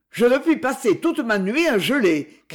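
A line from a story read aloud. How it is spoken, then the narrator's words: Shouting voice. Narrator (French): cria la voix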